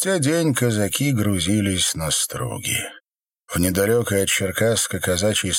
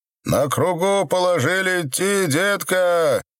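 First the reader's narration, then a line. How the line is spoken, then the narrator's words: Shouted from a boat. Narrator (Russian): крикнули с лодки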